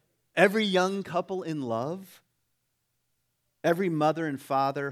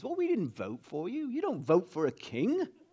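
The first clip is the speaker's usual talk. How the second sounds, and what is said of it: Weak put-on English accent. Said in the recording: “I don't really have a very good English accent.”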